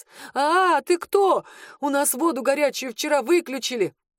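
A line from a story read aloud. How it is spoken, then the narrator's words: Frightened yelling. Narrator (Russian): заорал парень испуганно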